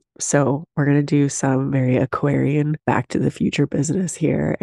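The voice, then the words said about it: Sick, rough-sounding voice. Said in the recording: “Your girl has bronchitis... I sound awful... sounding like this”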